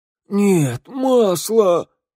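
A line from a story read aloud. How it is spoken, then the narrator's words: Cry out. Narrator (Russian): вскрикнул тавернщик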